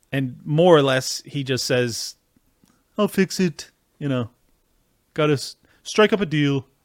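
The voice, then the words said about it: Weak impression of Trump. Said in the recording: “Sorry, I'm usually better at doing the impersonation, but when I'm in mid-rant, it's pretty challenging.”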